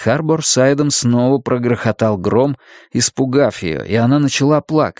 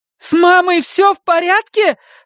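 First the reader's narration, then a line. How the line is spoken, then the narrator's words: Shout into phone. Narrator (Russian): закричала в трубку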